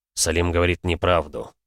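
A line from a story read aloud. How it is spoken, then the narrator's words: Tired objection. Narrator (Russian): устало возразил Максуд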